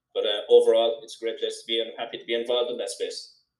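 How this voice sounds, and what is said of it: Mild Irish Cork accent. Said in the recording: “Love the accent ... I had to neutralize it a little bit ... I had a pure Cork accent, which is very high speed ... this is the kind of a milder version of that accent”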